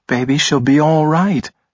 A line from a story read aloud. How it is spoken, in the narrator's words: Blaze said in a soothing tone